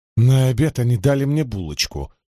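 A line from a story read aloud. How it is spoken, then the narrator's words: Grumbling mutter. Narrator (Russian): пробурчала Найниф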